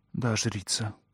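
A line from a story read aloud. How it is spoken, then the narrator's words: Muttered in chorus. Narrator (Russian): Пробормотала я, и звук моего голоса слился с голосами окружающих меня людей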